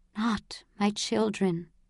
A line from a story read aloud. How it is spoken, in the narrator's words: whispered Mother